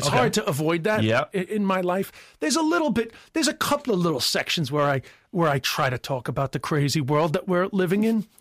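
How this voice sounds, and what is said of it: American accent. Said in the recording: “an Irishman with an American accent”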